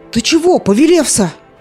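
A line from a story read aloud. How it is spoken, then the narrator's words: Frightened, sleepy shout. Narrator (Russian): испуганно с просонья закричал Кир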